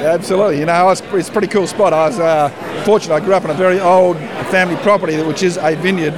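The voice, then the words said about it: Australian accent. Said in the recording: “Now I'm detecting accent, and I'm going to guess Australian ... Correct. I'm Australian.”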